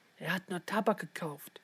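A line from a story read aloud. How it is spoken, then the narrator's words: Whisper. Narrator (German): flüsterte sie Leon zu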